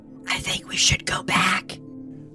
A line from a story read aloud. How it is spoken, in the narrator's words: whispered Bebop